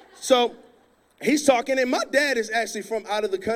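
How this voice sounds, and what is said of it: Usual voice. Nothing is said of it.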